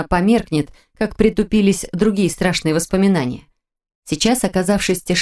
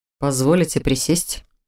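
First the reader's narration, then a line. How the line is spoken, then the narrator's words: Formal tone question. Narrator (Russian): Официальным тоном, каким всегда разговаривал со мной на людях, спросил Норман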